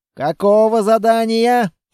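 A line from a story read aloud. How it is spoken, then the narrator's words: Growled. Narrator (Russian): прорычал лейтенант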